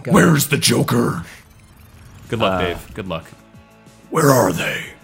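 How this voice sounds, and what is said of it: Gravelly Batman character voice. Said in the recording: “Batman impersonation ... That's pretty good.”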